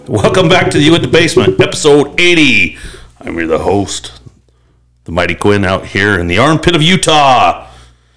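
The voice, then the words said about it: Deeper, congested voice. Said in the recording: “my voice is a lot deeper today? ... Basically sinuses. Just freaking killing me.”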